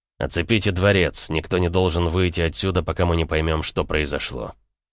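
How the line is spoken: Cold statement. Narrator (Russian): холодно произнес я

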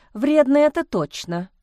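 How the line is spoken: Rueful sigh. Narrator (Russian): вздохнула Лиза, вспомнив испорченное платье

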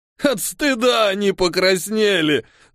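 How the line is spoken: Sobbing with laughter. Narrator (Russian): весь от смеха всхлипывал тот

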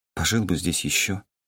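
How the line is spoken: Mumbled. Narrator (Russian): пробормотала Кёнан

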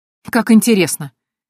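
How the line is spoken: Snorted. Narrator (Russian): хмыкнула я

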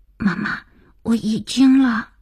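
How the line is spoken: Child's hurried frightened whisper. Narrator (Chinese): 儿子急促惶恐的小声

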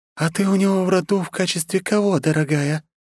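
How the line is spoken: Deceptively sweet tone. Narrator (Russian): обманчиво ласковым тоном поинтересовалась Андросова

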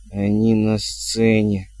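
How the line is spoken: Wheeze. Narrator (Russian): просипел он

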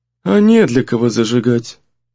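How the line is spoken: Muffled old woman's grumble. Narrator (Russian): буркнула старуха глухим голосом

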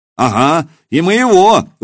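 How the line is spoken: Shouted. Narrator (Russian): выкрикнул кто-то

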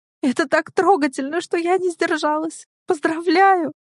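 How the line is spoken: Laughing through tears. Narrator (Russian): Она смеется сквозь слезы

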